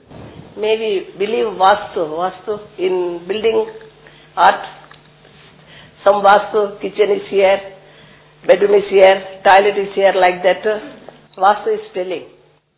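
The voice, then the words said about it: Unfamiliar accent, hard to understand. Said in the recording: “I'm not so sure what your accent is new for me. Does anybody catch what she's saying”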